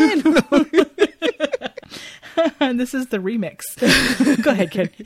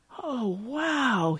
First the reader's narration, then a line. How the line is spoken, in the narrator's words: he whispers